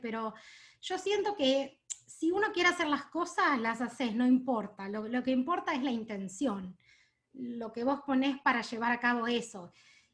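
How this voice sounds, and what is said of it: Strong Argentine accent in Spanish. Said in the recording (Spanish): “tengo un acento bastante fuerte... tengo acento”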